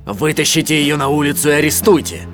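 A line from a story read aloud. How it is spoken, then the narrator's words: Angry shout. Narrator (Russian): закричал злобно Фроло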